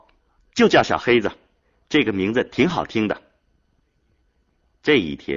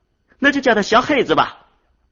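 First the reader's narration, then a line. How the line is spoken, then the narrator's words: Calling out. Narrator (Chinese): 明明叫着说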